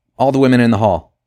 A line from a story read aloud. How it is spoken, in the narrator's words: he said sharply